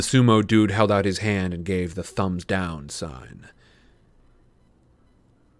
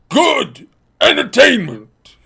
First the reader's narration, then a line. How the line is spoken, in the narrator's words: he bellowed